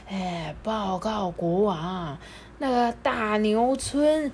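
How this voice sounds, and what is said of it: Hoarse character voice. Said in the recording (Chinese): “用沙哑的声音说”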